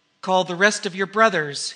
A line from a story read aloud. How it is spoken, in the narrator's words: he cried